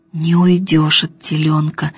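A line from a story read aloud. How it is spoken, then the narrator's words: Whispering. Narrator (Russian): шептал Емеля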